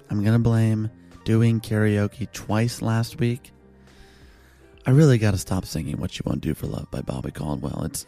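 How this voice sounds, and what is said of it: Hoarse, strained voice. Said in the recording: “My voice is a little bit shot.”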